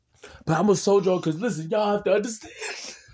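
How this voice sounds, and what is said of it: Crying, emotional voice. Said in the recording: “I got emotional. ... I am so mad right now that I'm crying. You do not understand how upset I am that I'm crying.”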